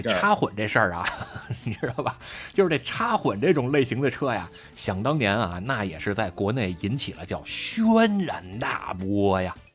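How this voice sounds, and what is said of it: Imitating Shan Tianfang storyteller voice. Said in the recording (Chinese): “怎么你这马上就要听懂掌声了？我听你这架势，... 有点有点单田芳那口音嘛”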